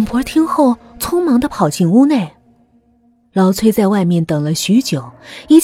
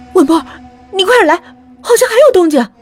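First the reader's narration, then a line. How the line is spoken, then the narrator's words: Sudden call from inside. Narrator (Chinese): 里面另一个帮忙的邻居突然喊道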